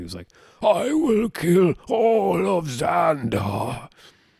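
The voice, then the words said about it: Imitates a villain character's voice. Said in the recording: “That wasn't really a good impression”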